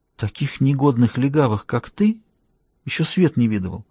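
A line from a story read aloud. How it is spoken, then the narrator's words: Strangled whisper. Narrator (Russian): она прошептала сдавленным голосом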